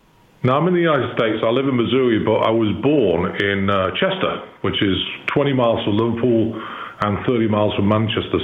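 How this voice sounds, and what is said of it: English accent. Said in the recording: “I'm detecting an English accent”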